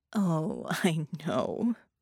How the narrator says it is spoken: Doppelganger said, and chuckled

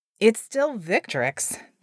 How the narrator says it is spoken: the Djinni chuckled

